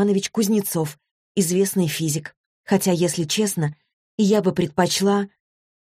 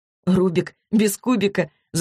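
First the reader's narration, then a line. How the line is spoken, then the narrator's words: Laughing. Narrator (Russian): засмеялась Злата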